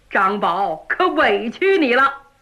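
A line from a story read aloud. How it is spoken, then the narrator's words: Hearty laughter. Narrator (Chinese): 岳飞哈哈大笑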